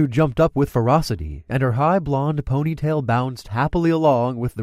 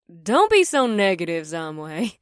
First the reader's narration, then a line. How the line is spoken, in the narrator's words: laughed